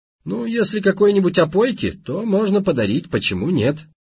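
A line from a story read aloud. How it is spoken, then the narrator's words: Laughing. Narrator (Russian): засмеялся таксист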